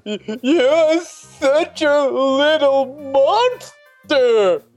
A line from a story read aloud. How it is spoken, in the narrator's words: Cynthia yelled at me